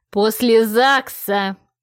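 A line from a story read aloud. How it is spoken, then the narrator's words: Barked. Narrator (Russian): Рявкнула так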